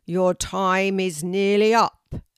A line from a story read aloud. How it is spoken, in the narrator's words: bellowed the teacher of the oak tree